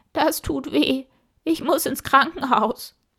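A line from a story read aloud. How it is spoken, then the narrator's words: Horse whining. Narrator (German): jammerte das Pferd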